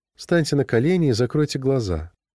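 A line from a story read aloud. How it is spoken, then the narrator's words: Affectionate female voice. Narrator (Russian): сказала она ласковым голосом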